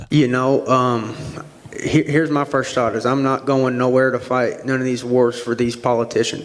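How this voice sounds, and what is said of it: Arkansas accent. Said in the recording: “He's from Arkansas. ... oh, I know that accent.”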